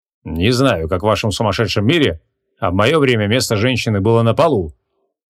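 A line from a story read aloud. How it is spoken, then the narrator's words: Scoffing. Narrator (Russian): хмыкнул Креол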